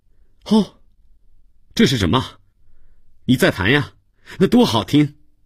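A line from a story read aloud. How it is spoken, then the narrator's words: Shouting from next room. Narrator (Chinese): 他在隔壁的屋子里喊了起来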